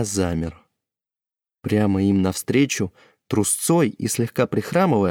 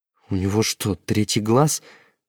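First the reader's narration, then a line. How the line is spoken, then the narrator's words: Confused mutter. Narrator (Russian): растерянно пробормотал он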